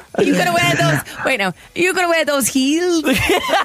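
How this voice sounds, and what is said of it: Deliberately bad Scouse accent. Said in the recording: “her impressions or her accents, because they're phenomenal ... Phenomenally bad ... absolutely woeful ... could you do maybe like a Scouse accent there?”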